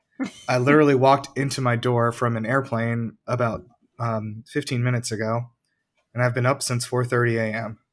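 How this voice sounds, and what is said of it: Raspy voice, possibly sick. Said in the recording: “my voice is raspy, ... it's because I may be sick, or it may be allergies”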